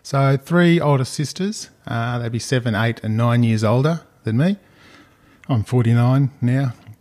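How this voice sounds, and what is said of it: Australian accent, not Cockney. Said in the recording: “the accent, I don't think you'd pick up on it. It's all Australian... It's not very Cockney, is it?”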